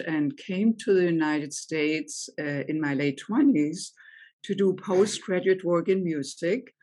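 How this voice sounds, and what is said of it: German accent. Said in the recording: “I grew up in Germany, as you may be able to tell from my accent”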